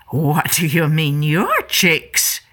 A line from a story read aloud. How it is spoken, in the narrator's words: Mama Lion growled